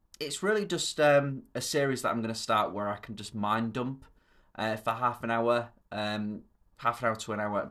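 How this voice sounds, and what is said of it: Thick Yorkshire accent. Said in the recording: “my very thick Yorkshire accent”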